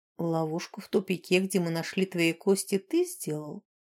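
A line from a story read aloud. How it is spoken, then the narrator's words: Soft question. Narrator (Russian): мягко спросил Рьен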